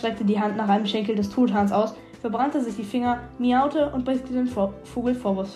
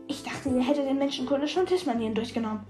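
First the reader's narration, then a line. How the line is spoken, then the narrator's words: Hissed. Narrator (German): zischte ich ihr zu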